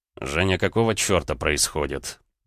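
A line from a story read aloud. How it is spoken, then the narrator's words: Through gritted teeth. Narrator (Russian): Процедил Рома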